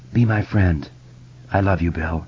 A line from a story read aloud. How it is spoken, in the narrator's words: she muttered